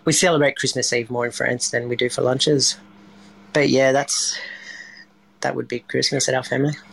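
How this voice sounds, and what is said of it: Strong Australian accent. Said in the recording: “You've got a particularly strong Australian accent for a Frenchman.”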